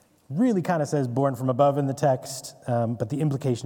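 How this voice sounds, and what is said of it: Usual voice. Nothing is said of it.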